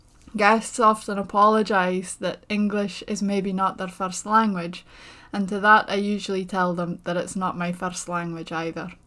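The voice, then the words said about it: Strong Shetland accent. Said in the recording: “my accent and the language that we speak here is something that I'm constantly asked about ... my strong accent, the intonation of my voice, and the way that I pronounce, usually my vowels in particular ... in Shetland”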